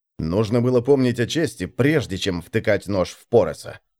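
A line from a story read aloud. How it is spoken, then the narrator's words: Plain. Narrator (Russian): сказал Гуд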